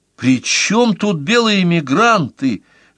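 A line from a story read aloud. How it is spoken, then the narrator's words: Exclaiming. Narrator (Russian): воскликнула Тучкова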